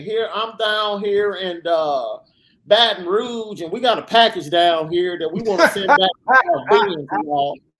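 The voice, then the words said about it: Put-on Southern twang accent. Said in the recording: “Southern Twang ... fake accent”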